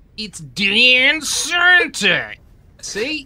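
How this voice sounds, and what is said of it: Exaggerated put-on Australian accent. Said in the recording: “Offensive Australian accent Santa ... Hey, that was pretty good. ... That was excellent.”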